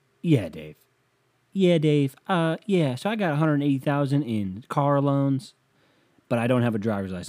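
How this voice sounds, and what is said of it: Caller voice with southern accent. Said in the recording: “I don't know how she has a southern accent living in Philadelphia... everyone's got a southern accent”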